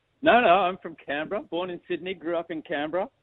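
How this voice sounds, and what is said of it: Strong, mixed Australian accent. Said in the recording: “a very strong accent there ... you sound like you're an Australian now ... my accent's undergone several evolutions of trying to be understood overseas.”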